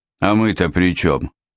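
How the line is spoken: Grumbling big man. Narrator (Russian): проворчал здоровяк

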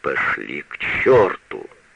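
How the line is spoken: Growled. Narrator (Russian): прорычал

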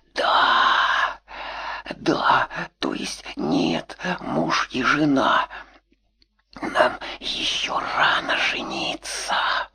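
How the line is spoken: Ecstatic moan. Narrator (Russian): Маша простонала от восторга

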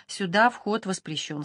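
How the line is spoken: Plain. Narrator (Russian): сказали они

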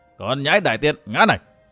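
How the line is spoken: Mocking loud laughter. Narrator (Vietnamese): Nhấp Luân Tôn giả cho là Đường Đỗ Quyên ngu ngốc cho nên cười lớn

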